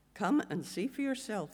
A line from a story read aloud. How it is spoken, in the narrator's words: Philip replied